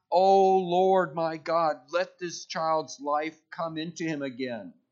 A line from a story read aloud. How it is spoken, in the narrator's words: cried to the Lord